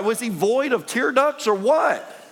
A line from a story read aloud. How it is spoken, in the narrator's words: He cried